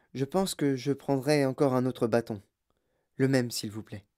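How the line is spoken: Small calm voice. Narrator (French): dit-il d'une petite voix tranquille

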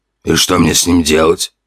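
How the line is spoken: Nervous snort. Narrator (Russian): нервно хмыкнул темный эльф

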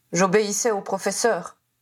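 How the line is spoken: Grumpy reply. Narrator (French): répondit Goyle d'un ton bougon

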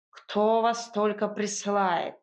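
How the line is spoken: Cat's displeased grumble. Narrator (Russian): недовольно проворчал кот

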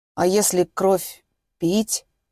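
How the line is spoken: Uncertain. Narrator (Russian): неуверенно спросил он

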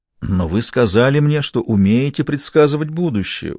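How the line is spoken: Pleading tone. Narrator (Russian): умоляющим тоном обратился Габри к Жанне

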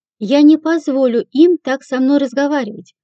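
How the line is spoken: Indignant shouting. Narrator (Russian): возмущенно кричала сеньора Виган

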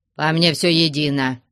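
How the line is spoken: Dry tone. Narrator (Russian): сухо ответил Потап Максимыч

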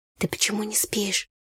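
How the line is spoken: Quiet question. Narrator (Russian): негромко спросила

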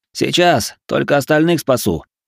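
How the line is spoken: Smirking grunt. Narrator (Russian): хмыкнул эльф

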